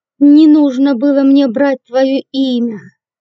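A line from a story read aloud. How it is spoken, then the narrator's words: Hateful hiss. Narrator (Russian): С ненавистью прошипел Дудник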